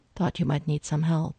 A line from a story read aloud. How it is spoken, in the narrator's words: he said evenly